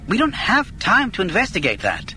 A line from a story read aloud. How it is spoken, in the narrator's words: Galen snapped